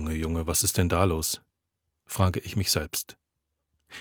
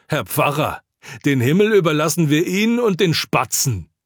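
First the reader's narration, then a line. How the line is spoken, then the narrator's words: Shrieking woman. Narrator (German): kreischend schreit eine Frau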